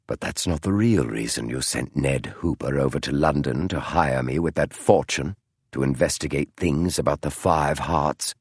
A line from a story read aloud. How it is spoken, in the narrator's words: Holmes said softly